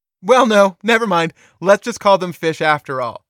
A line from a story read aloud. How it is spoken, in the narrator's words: he said